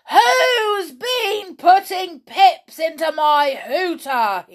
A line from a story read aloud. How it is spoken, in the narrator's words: roared